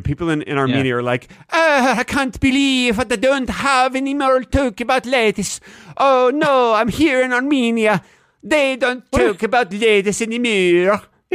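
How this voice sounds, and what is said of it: Exaggerated fake Armenian accent. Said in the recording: “I'm going to do my Armenian accent right now for you. ... What is that accent? ... That's Armenian. ... That is definitely not Armenian.”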